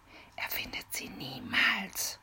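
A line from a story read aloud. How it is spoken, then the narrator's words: Whisper. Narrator (German): flüsterte Mimi Peter zu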